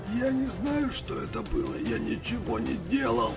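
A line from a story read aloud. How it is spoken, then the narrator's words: Choking wheeze. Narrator (Russian): Задыхаясь от урезавшегося в горло воротника кофты, прохрипел Андрей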